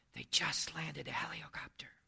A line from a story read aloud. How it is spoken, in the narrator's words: In a hushed voice, the child answered